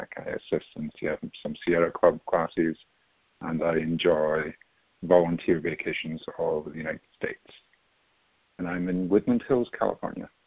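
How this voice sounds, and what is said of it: Scottish accent. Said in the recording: “where is your sexy accent from? ... I was born in Scotland and lived there until I was in my 20s”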